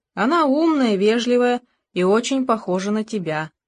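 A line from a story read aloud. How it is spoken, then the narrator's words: Plain. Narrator (Russian): сказала мать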